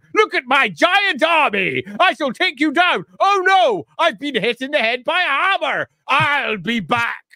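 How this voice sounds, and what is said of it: Hammy villain voice imitating Nagash. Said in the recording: “Great Nagash impression.”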